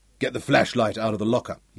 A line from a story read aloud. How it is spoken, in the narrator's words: snapped